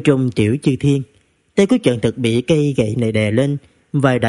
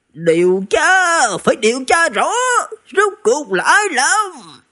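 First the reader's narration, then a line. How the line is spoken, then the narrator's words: Furious shout. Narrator (Vietnamese): Nghiêm Tiện Chi cũng mặt xanh như gan, giận dữ thét lên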